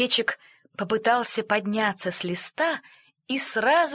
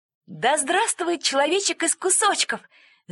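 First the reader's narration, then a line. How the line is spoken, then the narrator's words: Shouting. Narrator (Russian): закричал Франко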